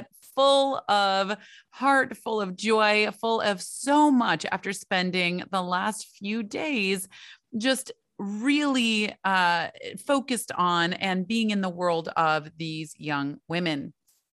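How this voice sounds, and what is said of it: Slightly raspy, hoarse voice. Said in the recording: “I think that's when I lost my voice ... my not so coordinated skiing didn't help the voice. But that is why I am a little raspy today”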